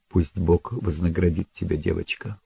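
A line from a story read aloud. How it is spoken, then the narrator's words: Quiet. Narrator (Russian): сказал он тихо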